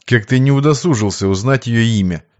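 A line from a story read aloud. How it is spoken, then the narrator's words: Calm reply. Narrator (Russian): спокойно ответил Сергей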